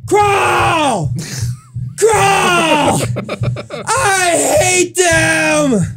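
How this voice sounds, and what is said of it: Hoarse, strained yelling. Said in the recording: “we just have him yell ... My voice is pretty wrecked ... He's just yelling at us ... now my voice is gone”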